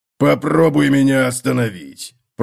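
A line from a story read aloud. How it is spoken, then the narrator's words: Growl. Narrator (Russian): прорычал Готрек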